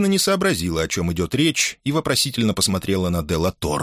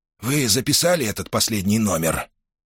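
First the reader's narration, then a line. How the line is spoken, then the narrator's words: Quiet question. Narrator (Russian): Делла Торре негромко спросил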